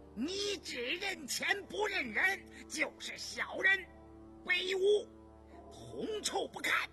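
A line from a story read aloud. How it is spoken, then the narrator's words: Thunderous, raging roar. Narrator (Chinese): 印娥被他顶了一愣，顿时咆哮如雷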